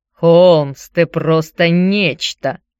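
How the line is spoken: Overly loud exclamation. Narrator (Russian): воскликнул Никита слишком громко

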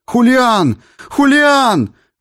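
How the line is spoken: Desperate shout. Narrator (Russian): отчаянно закричал, уверенный, что мать его убила

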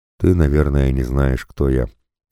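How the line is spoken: Calm. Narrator (Russian): спокойно продолжает Горохов

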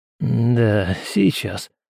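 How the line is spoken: Young man muttering. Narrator (Russian): пробормотал под нос парень

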